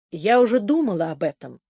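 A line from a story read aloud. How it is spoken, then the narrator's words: Plain. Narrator (Russian): сказала Генриетта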